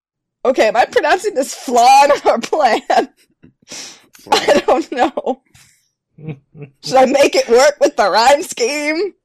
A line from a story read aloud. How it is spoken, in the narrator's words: Tootie shouted